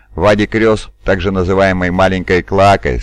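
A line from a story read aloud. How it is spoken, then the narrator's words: Plain. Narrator (Russian): сказал шериф Ветт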